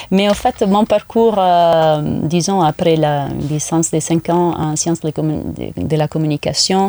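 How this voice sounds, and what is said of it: Italian accent in French. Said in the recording (French): “le fait d'être d'origine italienne, c'est assez euh, facile à mhm. savoir à cause de mon accent. ... Ça peut être espagnol aussi.”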